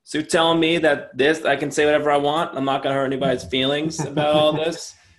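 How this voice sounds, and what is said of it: Put-on New Jersey accent. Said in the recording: “I'm from New Jersey, so I guess I can make this accent and make fun of people from New Jersey”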